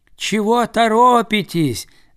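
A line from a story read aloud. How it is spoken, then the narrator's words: Shouting ducks. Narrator (Russian): закричали им кряквы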